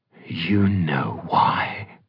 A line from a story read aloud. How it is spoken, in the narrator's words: the dream snarled